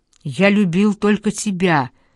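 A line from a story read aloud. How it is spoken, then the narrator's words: Anguished shout. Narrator (Russian): закричал Дарио, словно криком надеялся разбудить ту, что навеки уснет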